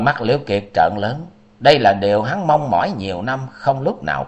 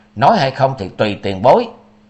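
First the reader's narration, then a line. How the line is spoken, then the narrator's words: Cold, angry. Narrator (Vietnamese): Liễu Kiệt còn đang tức giận, chàng lạnh lùng nói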